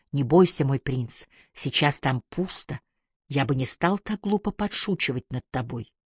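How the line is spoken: Encouraging whisper. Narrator (Russian): мистером Ги, который ободряюще шептал ему на ухо

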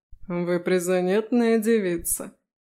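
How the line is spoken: Amused snort. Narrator (Russian): хмыкнула Ластер

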